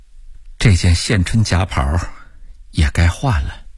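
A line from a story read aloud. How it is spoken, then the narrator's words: Murmuring. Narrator (Chinese): 李慧芳喃喃地咕哝道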